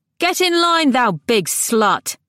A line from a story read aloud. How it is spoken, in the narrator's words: a voice on the opposite side of the shore was raised, exceeding wrath, and Alecto heard it shout in a very great shout